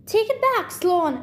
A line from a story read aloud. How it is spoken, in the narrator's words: I shouted